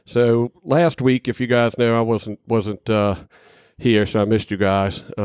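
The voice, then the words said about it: Raspy, congested voice. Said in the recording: “I've got a little bit of the allergy sneaking up on me, so yeah, I'm a little raspy here... you're a little snotty and a little sneezy and a little raspy”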